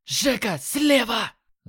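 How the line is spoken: Yelled warning. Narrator (Russian): Заорал Юки

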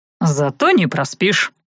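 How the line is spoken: Wry snort. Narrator (Russian): хмыкнул Талан

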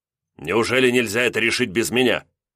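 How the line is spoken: Indignant prince. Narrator (Russian): возмущенно князь

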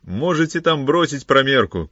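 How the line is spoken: Shouted. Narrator (Russian): крикнул он

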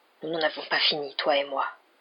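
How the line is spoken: Murmured. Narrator (French): murmura-t-il

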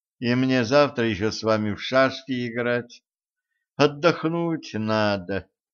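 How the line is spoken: Sleepy. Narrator (Russian): сонно добавила Женька

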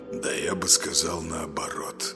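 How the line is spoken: Quiet reply. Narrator (Russian): негромко отозвался Влад

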